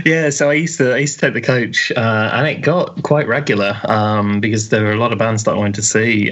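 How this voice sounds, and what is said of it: Birmingham English accent. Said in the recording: “I wondered where you were from because of your accent”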